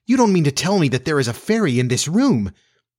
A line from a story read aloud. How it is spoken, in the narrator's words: she cried